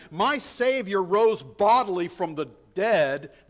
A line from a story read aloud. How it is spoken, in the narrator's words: would scoff